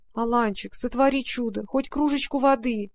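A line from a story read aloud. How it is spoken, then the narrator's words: Pleading. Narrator (Russian): взмолилась Варя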